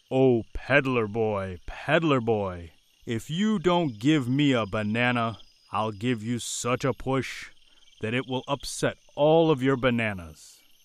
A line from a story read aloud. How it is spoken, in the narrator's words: the monkey called out in his loudest voice